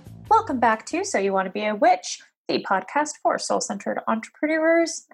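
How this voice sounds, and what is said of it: Radio-style broadcast voice. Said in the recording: “I guess I have a radio voice today. That was surprising.”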